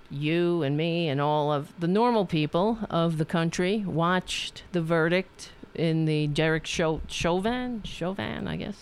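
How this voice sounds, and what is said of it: Staten Island accent. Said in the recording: “I grew up on Staten Island. What do you expect? ... Then I wouldn't sound like this. I would have a cool accent. But I have this fucking accent.”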